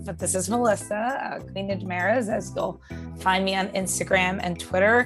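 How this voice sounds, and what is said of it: Hoarse, froggy voice. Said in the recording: “she sounds a little like a frog ... I do sound a little froggy ... my back to work teacher voice”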